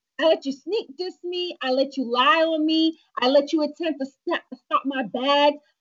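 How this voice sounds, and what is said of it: Sassy imitated voice. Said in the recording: “Read it in your sassy voice. ... More sassy. Sassy Cardi.”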